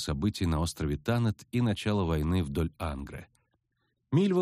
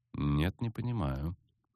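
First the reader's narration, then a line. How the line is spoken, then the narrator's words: Cold reply. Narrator (Russian): холодно ответила целительница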